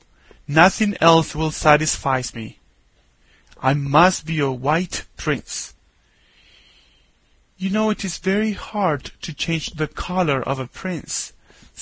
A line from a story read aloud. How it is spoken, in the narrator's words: said the doctor